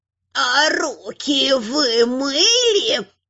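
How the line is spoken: Creaky voice. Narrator (Russian): проскрипел библиотекарь

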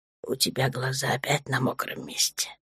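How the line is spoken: Whisper in ear. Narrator (Russian): прошептал ей на ухо

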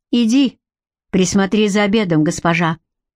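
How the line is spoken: Sudden sharp command. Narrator (Russian): неожиданно резко приказал ей Гарик

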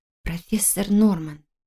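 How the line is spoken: Muttered. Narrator (Russian): пробормотала я

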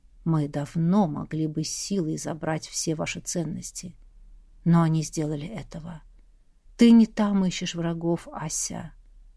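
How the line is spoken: Close intimate whisper. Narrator (Russian): прошептал практически в губы

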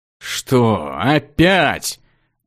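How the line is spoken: Mage's resigned groan. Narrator (Russian): обреченно простонал маг

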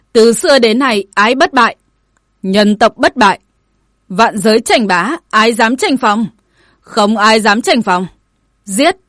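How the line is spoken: Crowd chanting, shouting. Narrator (Vietnamese): Mấy trăm tướng sĩ cùng hò hét

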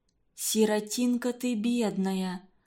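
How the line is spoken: Sighing mother. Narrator (Russian): вздохнула мать

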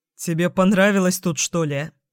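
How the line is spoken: Chuckling. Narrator (Russian): хохотнул Антипка

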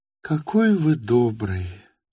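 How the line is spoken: Tender, affectionate. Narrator (Russian): ласково проговорила Лиза

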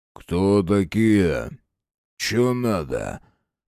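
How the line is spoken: Deep bass voice. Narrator (Russian): пробасил

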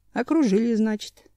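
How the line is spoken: Calm inner thought. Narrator (Russian): спокойно подумал

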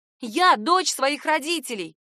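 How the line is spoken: Shout coming out as squeak. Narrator (Russian): крикнула я, но из губ вырвался какой-то жалкий писк

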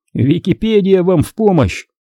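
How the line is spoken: Joking. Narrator (Russian): пошутил Дэйв

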